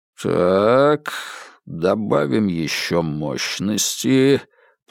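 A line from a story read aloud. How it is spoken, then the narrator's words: Muttering under breath. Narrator (Russian): пробурчал профессор себе под нос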